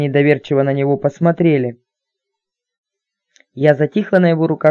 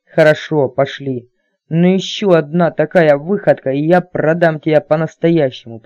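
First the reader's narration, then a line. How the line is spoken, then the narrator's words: Through gritted teeth. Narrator (Russian): процедил Кэп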